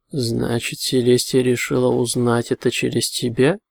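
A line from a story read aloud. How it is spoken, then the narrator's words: Grim. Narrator (Russian): мрачно проговорил он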